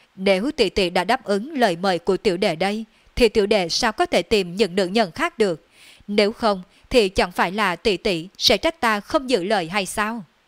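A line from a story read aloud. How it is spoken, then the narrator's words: Loud laughing speech. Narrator (Vietnamese): Đường Phong cười lớn nói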